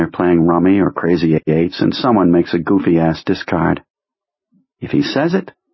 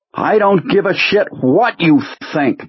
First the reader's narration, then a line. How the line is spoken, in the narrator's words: Jonesy says, his voice so harsh that it startles them all